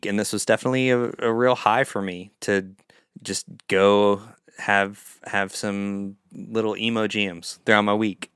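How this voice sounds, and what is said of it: Tired, lower-pitched voice. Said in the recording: “I'm getting tired because my voice is getting lower”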